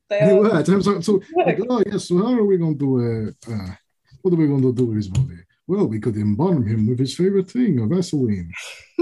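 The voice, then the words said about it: Put-on Russian accent, Count-like. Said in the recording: “That is my Russian accent, by the way. ... sounding like the Count from Sesame Street”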